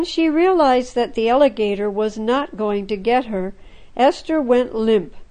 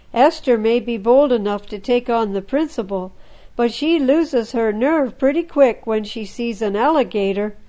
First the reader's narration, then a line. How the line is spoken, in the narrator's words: Ruby giggled